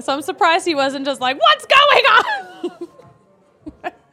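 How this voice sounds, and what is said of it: Loud yelling, peaking the mic. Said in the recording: “I can see Kale like adjusting my mics as I'm yelling in too. Did I peek? ... I peaked a little bit.”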